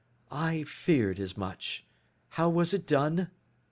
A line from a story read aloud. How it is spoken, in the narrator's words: He spoke calmly, but I could see that he was deeply moved